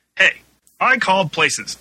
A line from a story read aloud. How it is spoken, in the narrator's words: Dan shouted more loudly